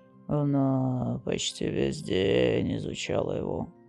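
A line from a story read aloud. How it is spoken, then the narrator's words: Sad manager. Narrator (Russian): печально произнес управляющий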